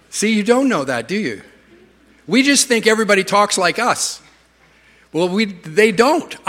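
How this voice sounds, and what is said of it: Canadian accent. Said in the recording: “I had a Canadian accent”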